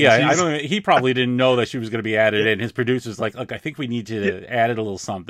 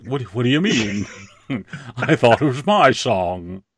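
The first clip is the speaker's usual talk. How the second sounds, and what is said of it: Imitates another person's voice. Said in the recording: “That's a good Christopher Lee.”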